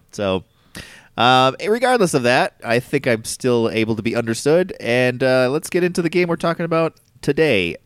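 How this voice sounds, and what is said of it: Congested, nasal voice. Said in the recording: “I have a cold today, so apologize if my voice sounds more nasally than normal ... I get a little stuffy there”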